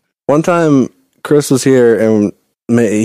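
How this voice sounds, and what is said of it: Usual voice. Nothing is said of it.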